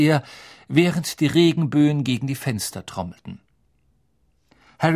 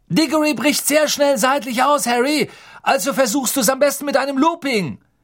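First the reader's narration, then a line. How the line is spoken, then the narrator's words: Calling after someone. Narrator (German): Wood rief ihm nach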